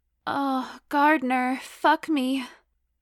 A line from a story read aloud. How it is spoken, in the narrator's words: I moaned